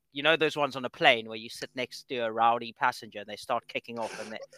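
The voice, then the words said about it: South African accent. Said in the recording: “especially with your accent, man ... has South African descent”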